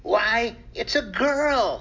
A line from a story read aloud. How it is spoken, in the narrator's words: he exclaimed